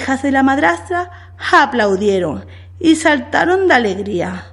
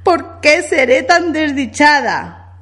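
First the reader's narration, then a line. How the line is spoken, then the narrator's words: Exclamation. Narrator (Spanish): exclamó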